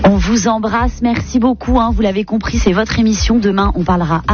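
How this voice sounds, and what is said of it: Usual voice. Nothing is said of it.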